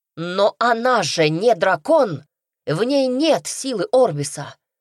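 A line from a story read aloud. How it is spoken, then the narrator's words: Girl's exclamation. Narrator (Russian): воскликнула девушка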